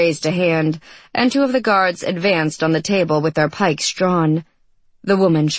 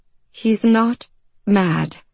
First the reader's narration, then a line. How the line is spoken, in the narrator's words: she said in a slow voice